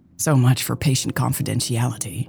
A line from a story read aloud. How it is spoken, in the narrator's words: she mumbled